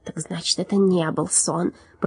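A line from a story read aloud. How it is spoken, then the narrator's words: Muttered. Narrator (Russian): пробормотал лорд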